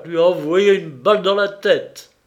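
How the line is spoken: Exclaimed. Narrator (French): s'écria Gréhac

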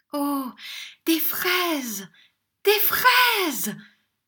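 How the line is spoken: Shouted. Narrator (French): cria Ninon

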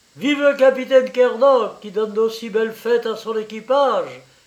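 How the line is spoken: Shouted. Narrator (French): cria Zélie

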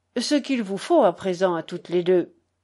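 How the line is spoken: Plain. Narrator (French): dit-il enfin

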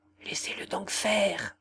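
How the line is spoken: Very quiet words. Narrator (French): dit tout bas Jean

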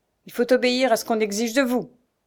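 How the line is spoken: Rough voice. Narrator (French): lui dit-il d'une voix rude

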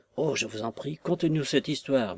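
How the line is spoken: Murmured. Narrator (French): murmure Watt

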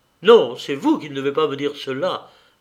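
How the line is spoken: Stern reply. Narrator (French): lui répondis-je d'un ton sévère

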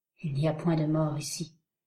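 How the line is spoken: Hollow, fear-choked voice. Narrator (French): dit Heyward d'une voix creuse et presque étouffée par la crainte

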